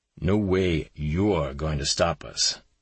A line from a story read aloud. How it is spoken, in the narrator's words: Sampson said to the blonde agent in his darkest, grimmest voice